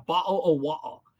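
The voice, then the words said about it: Poor attempt at British accent. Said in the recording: “Bottle of water in a British accent ... I have a terrible English accent. I cannot do it”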